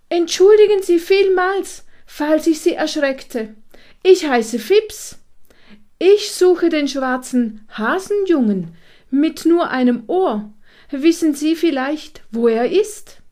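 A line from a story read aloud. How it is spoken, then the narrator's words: Loud. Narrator (German): Laut sagte er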